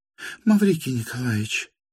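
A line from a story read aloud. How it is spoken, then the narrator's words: Frightened, suddenly lowered voice. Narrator (Russian): испуганно понизила она вдруг голос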